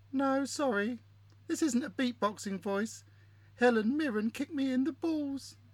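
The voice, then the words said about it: Funny put-on voice. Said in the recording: “talking in that funny voice”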